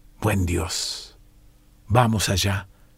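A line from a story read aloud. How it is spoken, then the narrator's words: Murmured. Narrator (Spanish): murmuró Garish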